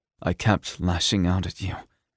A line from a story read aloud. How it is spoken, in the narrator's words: he murmured